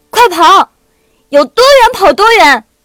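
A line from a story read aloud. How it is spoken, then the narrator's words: Loud roar. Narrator (Chinese): 傅小司大声吼着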